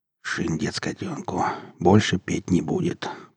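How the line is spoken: Boot muttering. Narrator (Russian): пробормотал сапог

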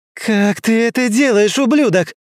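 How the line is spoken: Yelling. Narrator (Russian): завопила Инесс

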